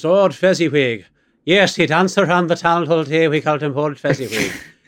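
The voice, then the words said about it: Put-on accent sounding Scottish. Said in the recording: “with their accent ... That's more Scottish, I think, what you were doing there.”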